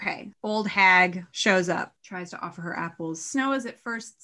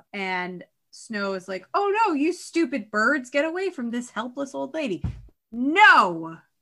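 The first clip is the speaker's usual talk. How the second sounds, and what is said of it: Angry yelling. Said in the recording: “I'm yelling into the mic, but I'm angry.”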